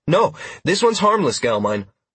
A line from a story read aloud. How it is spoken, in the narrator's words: I replied with a polite laugh